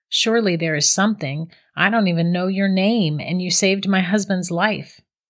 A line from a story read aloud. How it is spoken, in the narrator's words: Christy answered